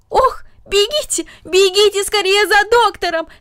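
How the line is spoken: Shouted. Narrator (Russian): закричала тетя

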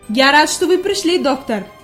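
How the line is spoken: Glad exclamation. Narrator (Russian): воскликнул господин Сесман, увидев друга

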